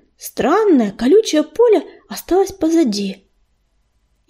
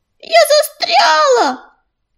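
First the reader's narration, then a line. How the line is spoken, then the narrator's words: Shouting squirrel. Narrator (Russian): кричала белочка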